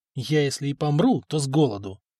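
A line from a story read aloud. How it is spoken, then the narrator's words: Muttered aside. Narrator (Russian): буркнул Самослав, думая, что хозяин не слышит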